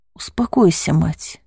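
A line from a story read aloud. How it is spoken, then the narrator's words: Gentle. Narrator (Russian): ласково произнес владыка Нон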